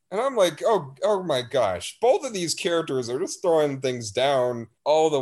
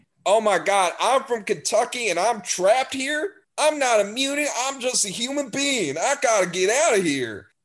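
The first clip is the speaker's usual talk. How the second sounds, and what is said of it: Cartoonish Southern accent impression. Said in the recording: “another guy who's got a very cartoonish Southern accent... He's supposed to be from Kentucky.”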